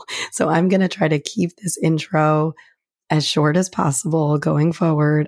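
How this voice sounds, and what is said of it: Sick, bad-sounding voice. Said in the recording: “my voice sounds horrible ... I have been sick for so long”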